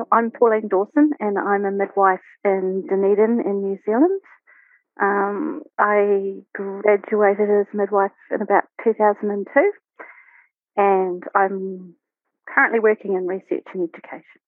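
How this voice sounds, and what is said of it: New Zealand (Kiwi) accent. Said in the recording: “you're a natural Kiwi too, by the accent ... I have a very Kiwi accent.”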